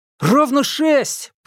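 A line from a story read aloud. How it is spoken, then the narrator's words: Shouted. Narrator (Russian): прокричал кто-то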